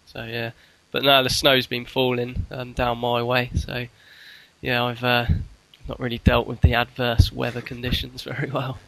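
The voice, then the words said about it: Congested voice from a cold. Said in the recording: “You sound like you've got a wee bit of a cold. ... I'm struggling a bit ... because I've got a cold.”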